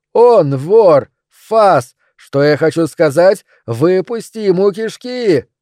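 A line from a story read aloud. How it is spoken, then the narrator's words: Shouted. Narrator (Russian): Выкрикнув эти слова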